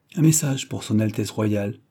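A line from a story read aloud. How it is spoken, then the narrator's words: Plain. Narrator (French): dit-il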